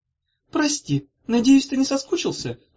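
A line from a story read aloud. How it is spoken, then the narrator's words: Cooing. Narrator (Russian): проворковала Зозо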